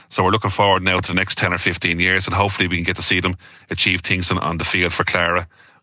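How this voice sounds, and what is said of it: Strong Clara Irish accent. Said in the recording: “Very strong Clara accent there”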